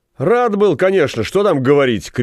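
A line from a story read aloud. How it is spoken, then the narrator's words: Shout. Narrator (Russian): крикнул Кишлот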